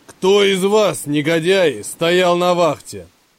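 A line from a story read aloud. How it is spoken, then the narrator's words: Roaring. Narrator (Russian): проревел он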